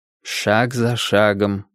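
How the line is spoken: Said to oneself. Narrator (Russian): говорил я себе

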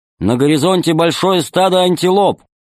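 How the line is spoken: Loud loudspeaker. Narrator (Russian): громко сказал динамик

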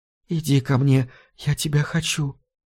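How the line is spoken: Intimate whisper in ear. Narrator (Russian): шептала Хелена ему на ухо

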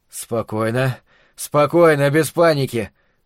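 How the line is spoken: Strained, nervous wheeze. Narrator (Russian): просипел сдавленным от волнения голосом отец семейства

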